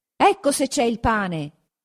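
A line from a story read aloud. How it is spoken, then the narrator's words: Hundred voices shouting together. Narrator (Italian): gridarono 100 voci insieme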